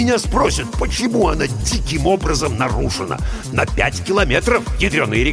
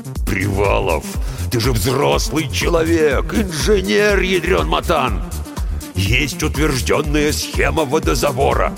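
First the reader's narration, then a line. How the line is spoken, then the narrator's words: Growled. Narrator (Russian): прорычал бригадир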